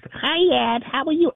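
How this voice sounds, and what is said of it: Childlike baby voice. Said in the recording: “she would like use this baby voice ... talked like a child”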